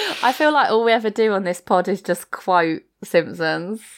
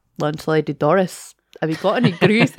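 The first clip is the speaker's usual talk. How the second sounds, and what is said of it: Poor put-on Scottish accent. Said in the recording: “Sorry to any Scottish people. My accent is terrible.”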